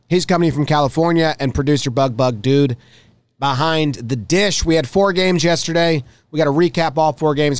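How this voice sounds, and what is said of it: Strained, fading voice. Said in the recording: “I'm already losing my voice”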